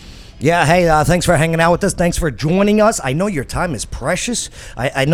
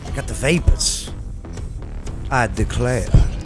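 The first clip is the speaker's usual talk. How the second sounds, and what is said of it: Put-on Southern accent. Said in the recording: “That's my southern accent.”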